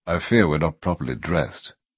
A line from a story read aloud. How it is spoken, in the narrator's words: Crestomancy murmured